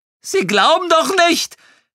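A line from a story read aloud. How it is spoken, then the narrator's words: Almost shrieking. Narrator (German): Er kreischte fast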